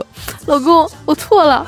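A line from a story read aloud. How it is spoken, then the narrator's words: Crying. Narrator (Chinese): 我老婆哭着说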